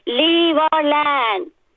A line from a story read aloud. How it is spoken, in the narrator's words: Bhima, with a fractured arm, bleeding forehead, screaming